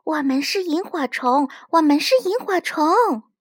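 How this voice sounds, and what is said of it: Soft quiet whispering voice. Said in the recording (Chinese): “小声说”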